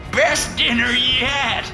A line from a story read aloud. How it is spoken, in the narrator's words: The madman cackled